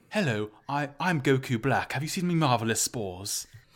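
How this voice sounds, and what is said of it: Put-on British accent. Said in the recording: “he just puts on a British accent.”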